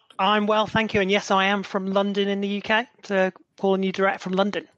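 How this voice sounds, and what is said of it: British (London) accent. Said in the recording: “he's got a UK accent, I think.”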